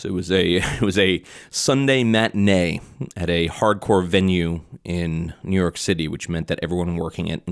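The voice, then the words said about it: Strained, not fully recovered voice. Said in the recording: “You could probably tell my voice is not fully recovered from it yet.”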